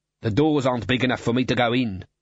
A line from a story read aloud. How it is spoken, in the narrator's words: snapped Clod